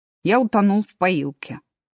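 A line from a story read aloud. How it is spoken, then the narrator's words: Sad. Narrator (Russian): грустно сказал Эразм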